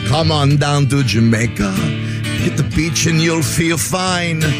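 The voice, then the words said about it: Light put-on Jamaican accent. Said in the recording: “this is my Patio Marley character. I don't know if I could do the full accent. Maybe I'll just give you a touch of it.”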